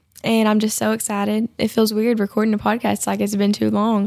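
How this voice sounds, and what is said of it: Slightly sick-sounding voice. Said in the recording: “I've been sick. You can probably still hear it in my voice a little bit”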